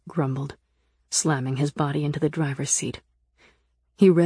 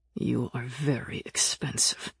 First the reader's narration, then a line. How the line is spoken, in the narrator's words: he said through clenched teeth